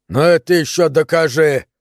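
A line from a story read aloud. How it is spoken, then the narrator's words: Shout. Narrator (Russian): выкрикнул Нейл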